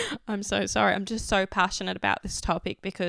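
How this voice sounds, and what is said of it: Usual voice. Nothing is said of it.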